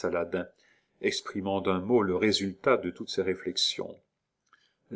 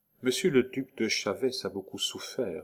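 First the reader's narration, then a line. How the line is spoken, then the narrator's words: Murmured after a pause. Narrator (French): murmura-t-elle après un silence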